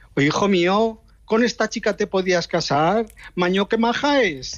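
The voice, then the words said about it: Put-on Aragonese Spanish accent. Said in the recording (Spanish): “con acento aragonés”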